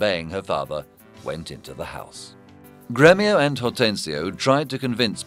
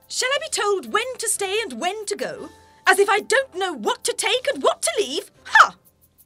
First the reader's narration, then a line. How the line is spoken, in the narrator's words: Katharina replied sharply